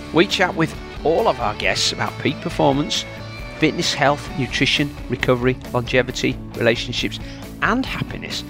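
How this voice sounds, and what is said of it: Yorkshire accent. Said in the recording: “You'll always hear a Yorkshire accent.”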